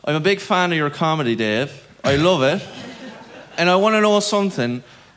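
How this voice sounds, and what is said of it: Put-on Cork accent. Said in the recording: “You have to put on the Cork accent. ... I have to put on the Cork accent”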